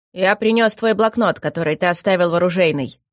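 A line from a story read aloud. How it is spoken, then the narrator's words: Cold. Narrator (Russian): холодно произнес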